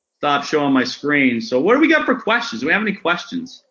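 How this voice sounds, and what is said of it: Maine accent. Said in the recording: “can't understand what he's saying ... that's the main accent right there”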